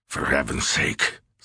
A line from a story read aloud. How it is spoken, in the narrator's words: Sears muttered